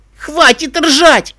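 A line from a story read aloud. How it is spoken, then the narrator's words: Offended shout. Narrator (Russian): обиженно крикнул пони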